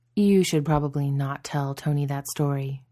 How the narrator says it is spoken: he murmured

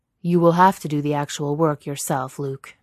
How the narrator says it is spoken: Vader says, his voice even deeper than the rumble of the engine

